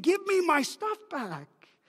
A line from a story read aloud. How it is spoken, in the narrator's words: The soldier arguing with the civilian, pleading